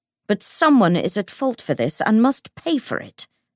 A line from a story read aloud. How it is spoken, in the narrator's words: snapped Bridgestock